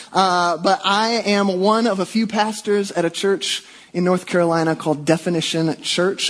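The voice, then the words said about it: Mixed Midwestern and Southern American accent. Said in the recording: “sometimes a strange accent. You'll hear all the hard A's of the Midwest and all the soft I's of the South.”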